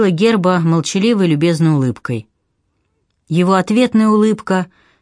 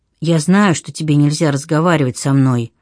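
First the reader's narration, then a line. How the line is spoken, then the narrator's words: Very quiet. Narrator (Russian): очень тихо произнес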